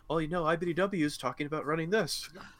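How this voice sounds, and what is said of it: Vague put-on European accent. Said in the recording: “non-determined European accent ... started leading into it and then you moved out of it”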